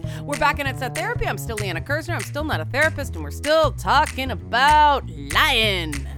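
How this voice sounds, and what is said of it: Exaggerated radio announcer voice. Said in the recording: “I'm doing the radio voice.”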